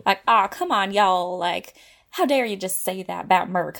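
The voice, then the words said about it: Put-on aggressive American Southern accent. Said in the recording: “the most aggressive US accent? ... It has to be the South, right?”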